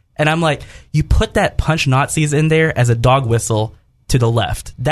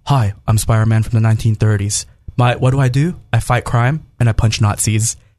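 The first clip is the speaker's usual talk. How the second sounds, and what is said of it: Imitates another person's voice. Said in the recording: “it's Nicolas Cage, so I'm going to do my best worst impression.”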